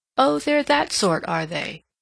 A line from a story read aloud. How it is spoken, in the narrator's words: said Miss Markham, with a little laugh